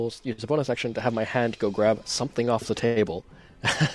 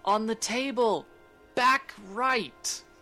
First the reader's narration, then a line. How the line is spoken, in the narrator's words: you hear Alan yell